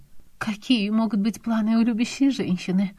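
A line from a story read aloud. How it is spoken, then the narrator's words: Sighing, almost anguished. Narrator (Russian): Вздохнула она почти страдальчески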